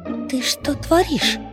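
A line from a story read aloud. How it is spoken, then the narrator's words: Silent mouthed whisper. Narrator (Russian): Одними губами прошептала я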